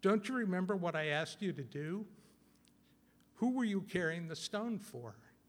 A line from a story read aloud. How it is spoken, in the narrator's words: Jesus sighed and he said